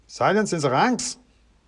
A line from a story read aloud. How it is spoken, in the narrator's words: shouted a Sergeant Majory sort of voice